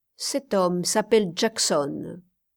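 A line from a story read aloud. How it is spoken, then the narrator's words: Plain. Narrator (French): dit Ernest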